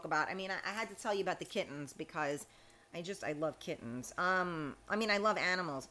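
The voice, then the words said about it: Speaks with a noticeable accent. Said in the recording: “I'm glad you like my accent.”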